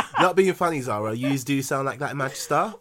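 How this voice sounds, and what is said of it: Put-on northern English accent. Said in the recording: “That wasn't even a Manchester accent. That was somewhere.”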